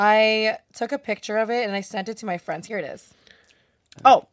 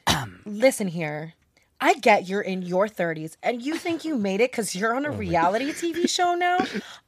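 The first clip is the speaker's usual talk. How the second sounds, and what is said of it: Reading in a dramatic voice. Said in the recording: “Read it in a dramatic voice.”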